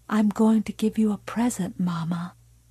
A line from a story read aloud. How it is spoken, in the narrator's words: Carrie said softly